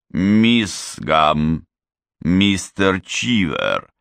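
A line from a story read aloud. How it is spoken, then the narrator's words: Icy voice. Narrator (Russian): ледяным голосом произнес завуч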